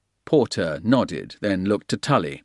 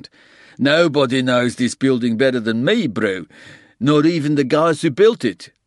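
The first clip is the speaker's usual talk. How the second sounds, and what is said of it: Thick Afrikaans accent. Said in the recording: “he said in a thick Afrikaans accent”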